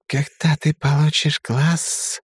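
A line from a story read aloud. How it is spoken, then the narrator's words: Snake's hiss. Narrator (Russian): шипение очередной змейки слева от себя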